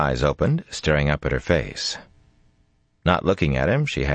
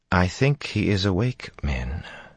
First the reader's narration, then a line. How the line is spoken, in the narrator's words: Amis said gently